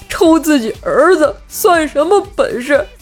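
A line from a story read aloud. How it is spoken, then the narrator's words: Crying. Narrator (Chinese): 冰棍哥哭泣着说道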